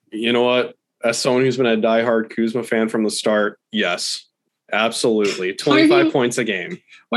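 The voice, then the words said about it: Sarcastic, mock-enthusiastic delivery. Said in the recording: “That was sarcasm.”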